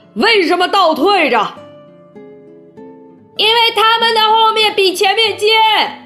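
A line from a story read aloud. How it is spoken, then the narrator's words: Shouting. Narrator (Chinese): 总统叫道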